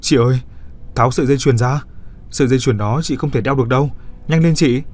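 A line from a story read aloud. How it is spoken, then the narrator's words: Straining loud shout. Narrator (Vietnamese): Cô cố hét to về phía chị cô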